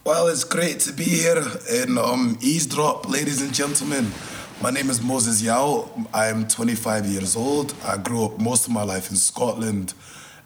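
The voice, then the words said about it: Scottish accent, somewhat faded. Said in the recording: “your Scottish accent ... I do apologize if the accent is not as authentic as it was”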